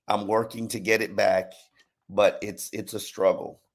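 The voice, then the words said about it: Hoarse, very deep lost voice. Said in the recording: “I lost my voice. ... So, yes, I will be talking like Barry White for a minute.”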